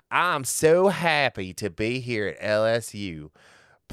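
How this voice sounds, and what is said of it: Bad fake Southern accent. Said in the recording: “Brian Kelly's Southern accent ... a pretend bad Southern accent”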